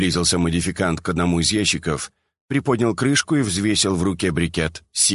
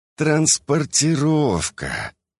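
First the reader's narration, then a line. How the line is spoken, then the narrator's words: Hesitant mumble. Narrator (Russian): промямлил другой, не решаясь заикнуться о главном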